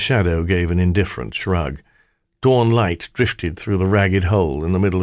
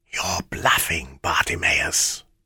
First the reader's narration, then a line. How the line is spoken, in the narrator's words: whispered